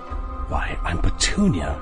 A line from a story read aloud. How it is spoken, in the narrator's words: she whispered to him, like she had just let him in on a great secret